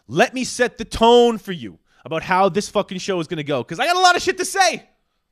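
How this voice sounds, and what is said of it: Raised, energetic, angry ranting voice. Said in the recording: “My voice is up. I got a lot of energy. I'm feeling angry. I'm feeling kind of ranty.”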